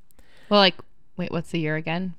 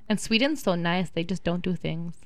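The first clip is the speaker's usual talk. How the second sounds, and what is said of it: Attempted Swedish accent, unconvincing. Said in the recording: “your attempt at a Swedish accent ... That wasn't even a Swedish. I don't even know what that was.”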